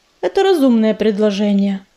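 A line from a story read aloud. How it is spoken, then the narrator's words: Very calm reply. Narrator (Russian): очень спокойно ответил Огнезвезд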